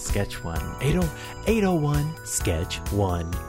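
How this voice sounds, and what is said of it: Radio announcer voice. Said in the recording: “My radio voice.”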